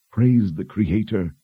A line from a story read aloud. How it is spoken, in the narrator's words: Anne said with a sigh